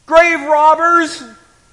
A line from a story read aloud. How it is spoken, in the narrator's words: Mary yelled